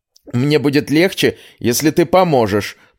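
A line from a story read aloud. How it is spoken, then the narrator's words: Hoarse wheeze. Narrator (Russian): просипела Элинна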